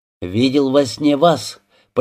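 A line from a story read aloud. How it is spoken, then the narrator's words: Almost joyful announcement. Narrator (Russian): почти радостно сообщил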